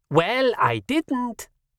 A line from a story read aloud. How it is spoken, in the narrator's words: Wulf said